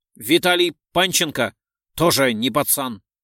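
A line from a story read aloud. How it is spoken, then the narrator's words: Sharp. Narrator (Russian): резко сказал Орлов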